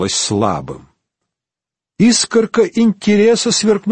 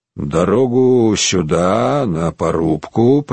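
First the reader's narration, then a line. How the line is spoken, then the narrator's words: Through gritted teeth. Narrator (Russian): процедил сквозь зубы Буко фон Кроссик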